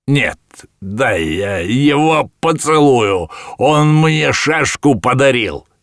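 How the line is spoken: Shouting. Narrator (Russian): кричал Иван Матвеевич

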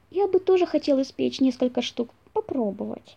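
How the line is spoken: Quiet small request. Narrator (Russian): тихонько попросил крысенок

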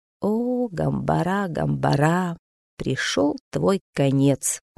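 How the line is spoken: Whisper. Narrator (Russian): прошептал он

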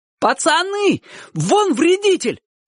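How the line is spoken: Sudden shout. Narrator (Russian): вдруг крикнул кто-то

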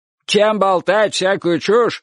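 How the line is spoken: Old man shouting from afar. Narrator (Russian): крикнул дедушка с веранды

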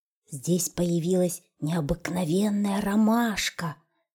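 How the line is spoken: Bear cub whispering. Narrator (Russian): шепотом сказал медвежонок

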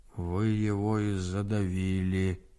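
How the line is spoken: Dull muffled voice. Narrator (Russian): глухо сказал Григорий

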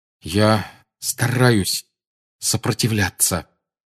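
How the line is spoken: Forced through clenched teeth. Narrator (Russian): выдавил Гарри сквозь стиснутые зубы

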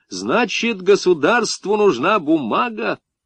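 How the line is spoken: Cheerful sing-song question. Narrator (Russian): снова запел он и повеселевшим голосом спросил

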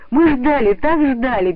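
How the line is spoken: Children's overlapping shouts. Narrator (Russian): перебивая друг дружку, закричали ребята

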